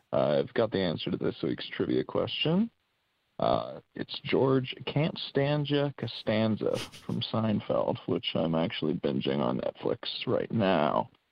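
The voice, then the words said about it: American accent. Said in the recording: “this fantastic American accent.”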